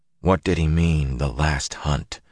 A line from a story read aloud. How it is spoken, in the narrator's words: He mumbled